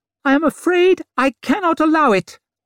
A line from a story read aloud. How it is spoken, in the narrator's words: he said in that ridiculous squeak